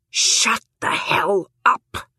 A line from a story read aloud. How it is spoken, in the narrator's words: She says this aloud in a hissed whisper